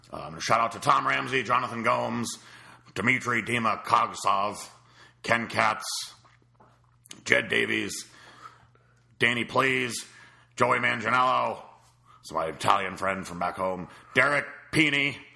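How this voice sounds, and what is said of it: Impression of Dave Palumbo. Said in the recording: “do the Dave Palumbo voice ... bring in a special guest, Dave Palumbo, here to do the shout-outs.”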